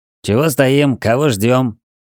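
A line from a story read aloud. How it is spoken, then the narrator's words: Glum but mild question. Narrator (Russian): Невесело, но и не грубо спросил парень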